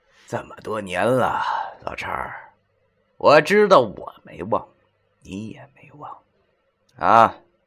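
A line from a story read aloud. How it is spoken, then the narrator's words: Wry bitter laugh. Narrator (Chinese): 文叔苦笑了一声，然后对他说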